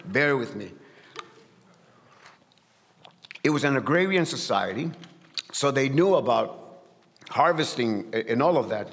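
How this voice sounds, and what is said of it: Strong accent. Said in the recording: “Sometimes my accent comes out strong here”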